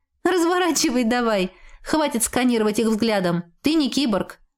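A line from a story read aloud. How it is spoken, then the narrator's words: Pleased laughter. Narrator (Russian): рассмеялась я, довольная своей задумкой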